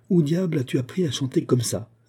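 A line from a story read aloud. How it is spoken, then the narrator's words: Old man's exclamation. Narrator (French): s'écria le vieil Italien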